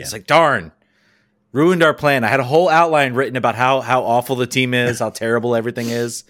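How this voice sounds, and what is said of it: Sarcastic delivery. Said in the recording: “that was sarcasm, in case you couldn't tell”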